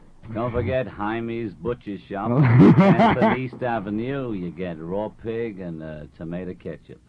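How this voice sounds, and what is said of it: British speaker doing American accent. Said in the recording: “You did an American accent there.”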